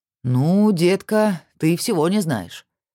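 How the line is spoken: Cheerful drawl. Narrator (Russian): весело протянул Сергей

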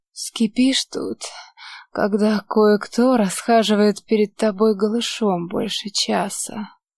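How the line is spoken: Hoarse mutter. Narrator (Russian): Хрипло пробормотала Лите

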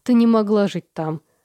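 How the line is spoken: Disbelieving laughter. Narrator (Russian): смеялась я, потому что не верила в реинкарнации

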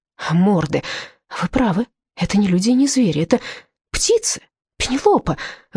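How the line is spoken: Excited exclamation. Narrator (Russian): восторженно воскликнул он в запале

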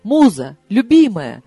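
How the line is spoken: Joyful exclamation, casual. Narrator (Russian): радостно воскликнул он, как ни в чем не бывало

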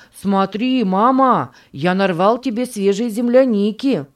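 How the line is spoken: Shouting. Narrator (Russian): закричал он

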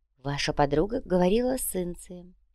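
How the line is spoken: Very quiet. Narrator (Russian): очень тихо сообщила Вероника

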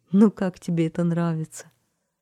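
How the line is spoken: Happy laughing question. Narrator (Russian): Парикмахер рассмеялся от счастья и спросил

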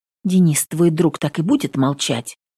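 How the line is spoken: Girl muttering. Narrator (Russian): Бормочет девчонка

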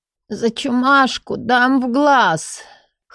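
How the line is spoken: Hoarse, forced out. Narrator (Russian): Хрипло выдавила я

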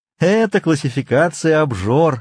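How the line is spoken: Laughing. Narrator (Russian): рассмеялся Консель

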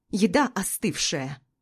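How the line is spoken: Bark. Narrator (Russian): рявкнул на меня Ротвейлер

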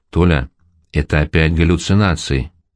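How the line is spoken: Tired reply. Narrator (Russian): отвечаю устало

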